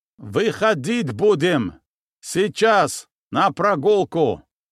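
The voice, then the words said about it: Shouting in strong foreign accent. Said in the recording (Russian): “Сильным акцентом, коверкая последовательность слов, гаркнул на весь коридор охранник. То ли афганец, то ли еще кто”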